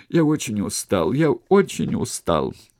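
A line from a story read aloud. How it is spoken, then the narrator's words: Groan. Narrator (Russian): Один из его друзей, это был знакомый нам Ахтой, простонал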